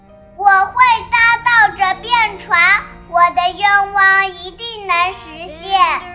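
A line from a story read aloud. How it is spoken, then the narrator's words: Loud shout. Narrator (Chinese): 最后忍不住大声的喊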